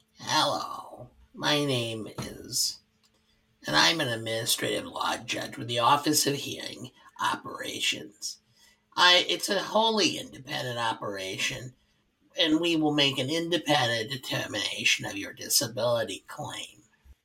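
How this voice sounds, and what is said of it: Droopy Dog-like impression of a judge. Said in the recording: “Your impression of him sounds like Drippy Dog. ... But that's exactly the way he sounded.”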